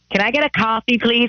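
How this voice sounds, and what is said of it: Mock American Valley Girl accent. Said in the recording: “Trying to do American accents? ... it's always Valley Girl. It's always American.”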